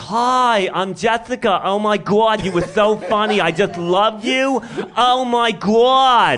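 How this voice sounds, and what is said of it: Put-on Long Island accent. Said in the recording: “a Long Island accent”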